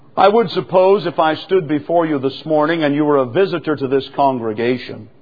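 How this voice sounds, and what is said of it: Southern accent. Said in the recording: “You would hear my accent, perhaps a southern accent”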